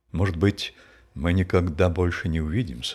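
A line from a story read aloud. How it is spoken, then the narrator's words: Plain. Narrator (Russian): сказал он мне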